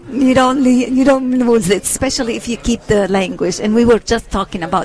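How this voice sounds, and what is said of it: Lebanese accent. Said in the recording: “your accent leads me to believe that you might have been born in Lebanon ... kept a lot of your accent”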